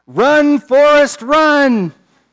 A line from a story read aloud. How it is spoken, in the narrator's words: the students yell